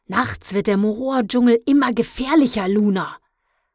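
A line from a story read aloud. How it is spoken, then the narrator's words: Snapping, blaming. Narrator (German): schnauzte mich Mondstärker an, als wäre es meine Schuld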